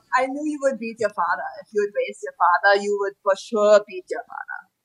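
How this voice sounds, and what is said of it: Put-on foreign accent, not convincing. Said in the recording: “everyone just went all in on this accent... I would say we're all not very good”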